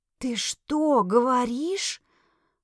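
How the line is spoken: Discreet whisper. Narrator (Russian): Прошептала я, не желая, чтобы остальные, услышав, к кому я обращаюсь, посчитали меня сумасшедшей

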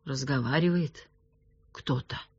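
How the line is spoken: Uncertain. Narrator (Russian): неуверенно сказал Вихров

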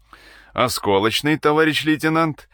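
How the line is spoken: Shouted without turning. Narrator (Russian): Не оборачиваясь, крикнул Сиротинин

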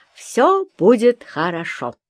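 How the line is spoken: Cheerful loud speech. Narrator (Russian): бодро улыбнувшись своему отражению, громко сказала

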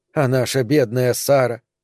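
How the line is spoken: Mutter. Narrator (Russian): пробормотала Регина

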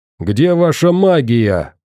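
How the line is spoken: Shouting. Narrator (Russian): прокричал

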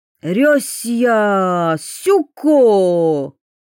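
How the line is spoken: Sudden yell from outside. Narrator (Russian): Вдруг завопил кто-то снаружи

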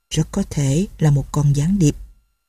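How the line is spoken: Muttering. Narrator (Vietnamese): Một người lẩm bẩm

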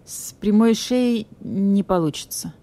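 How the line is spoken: Uncertain pronouncement. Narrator (Russian): постановил царь зверей, голос царя звучит неуверенно

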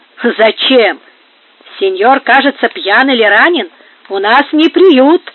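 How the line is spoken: Shouting. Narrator (Russian): закричали слуги

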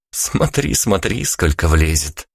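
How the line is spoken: Laughing. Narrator (Russian): посмеялась она

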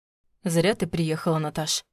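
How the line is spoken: Calm. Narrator (Russian): добавил он спокойно

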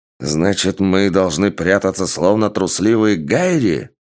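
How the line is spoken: Exclaiming armored warrior. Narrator (Russian): воскликнул воин в массивных доспехах

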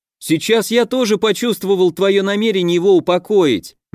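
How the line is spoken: Quick shout. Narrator (Russian): немедленно крикнул Костя

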